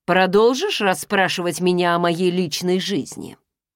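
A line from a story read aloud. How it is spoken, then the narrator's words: Cold, stony question. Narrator (Russian): Спросил он холодно, словно превратившись в камень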